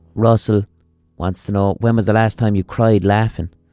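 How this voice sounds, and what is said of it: Speaks with a distinctive regional accent. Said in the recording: “the accent is not doing that anymore”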